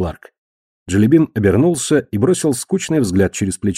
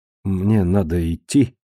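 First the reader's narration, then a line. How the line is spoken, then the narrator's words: Mumbled. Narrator (Russian): пробормотал он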